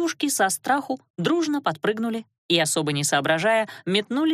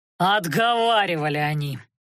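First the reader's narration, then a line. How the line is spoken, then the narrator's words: Growled. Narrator (Russian): рыкнул некромант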